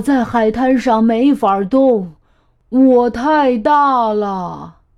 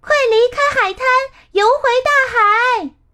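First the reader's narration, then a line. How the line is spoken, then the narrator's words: Little conch shouting loudly. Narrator (Chinese): 小海螺大声喊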